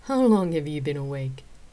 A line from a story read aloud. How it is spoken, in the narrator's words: I chuckled and asked